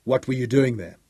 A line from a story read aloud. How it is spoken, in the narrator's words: demanded harshly